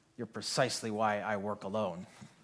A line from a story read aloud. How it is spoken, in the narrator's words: Elliot grunts and says